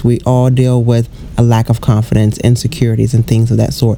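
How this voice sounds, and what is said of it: Hoarse, fading voice. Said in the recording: “as I'm losing my voice.”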